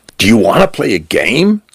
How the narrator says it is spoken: said Cal, his voice bright

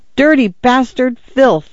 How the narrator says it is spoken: Arthur cried

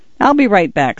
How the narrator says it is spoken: said Jody

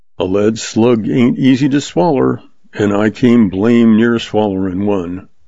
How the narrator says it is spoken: Frame commented dryly

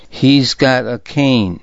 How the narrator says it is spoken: said Zorin

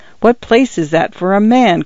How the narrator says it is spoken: cried Taggart's wife

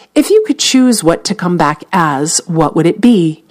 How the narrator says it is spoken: replied

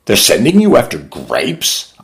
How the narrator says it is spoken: I cried

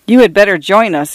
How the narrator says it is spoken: I agreed, quickly laughing

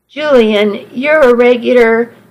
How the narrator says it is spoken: I laughed

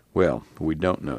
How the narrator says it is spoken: said Floyd

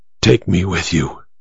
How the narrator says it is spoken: she whispered

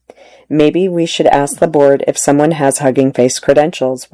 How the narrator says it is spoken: one asked

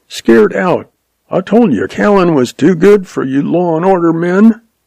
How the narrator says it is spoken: Jack yelped

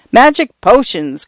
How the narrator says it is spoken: cried Paula

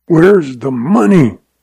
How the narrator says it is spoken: rasped Lem Craig

